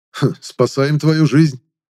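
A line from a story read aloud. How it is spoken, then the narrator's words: Snorting. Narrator (Russian): хмыкнул я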